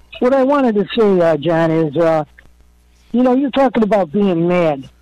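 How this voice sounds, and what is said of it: Voice like a movie mobster. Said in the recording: “you sound like Joe Pesci? ... you sound like a mobster, ... from Goodfellas”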